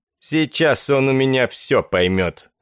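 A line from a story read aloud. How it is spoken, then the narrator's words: Malicious, tight-lipped. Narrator (Russian): сказал еще один человек с обликом стервятника, тонкими, злобно поджатыми губами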